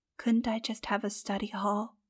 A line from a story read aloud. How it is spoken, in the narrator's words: She whispered